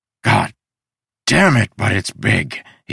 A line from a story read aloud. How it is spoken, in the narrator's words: he sighed